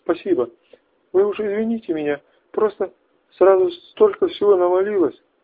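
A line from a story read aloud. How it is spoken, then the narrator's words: After sobbing, steadying. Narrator (Russian): рыдания прекратились, девушка сказала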